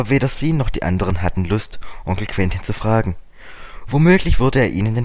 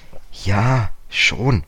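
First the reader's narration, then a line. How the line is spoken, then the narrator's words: Hesitant. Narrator (German): sagte George zögernd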